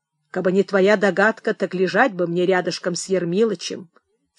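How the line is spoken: Calm reasoning. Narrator (Russian): спокойно соображал Михей Зотыч

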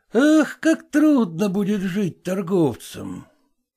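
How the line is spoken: Heavy sigh. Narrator (Russian): Зваров тяжело вздохнул и продолжал

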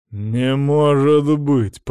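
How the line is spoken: Growled. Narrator (Russian): прорычал Остап

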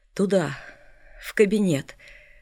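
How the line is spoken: Barely audible. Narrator (Russian): сказал он едва слышно

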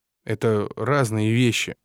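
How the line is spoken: Grumbled. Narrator (Russian): буркнул

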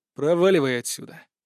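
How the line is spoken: Cold. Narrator (Russian): холодно произнес я

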